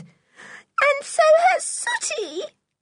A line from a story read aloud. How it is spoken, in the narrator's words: suddenly wailed Marybelle, bursting into tears again